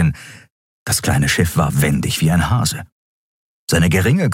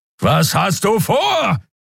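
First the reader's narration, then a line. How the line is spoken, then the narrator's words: Bellowing. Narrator (German): brüllte Kero wieder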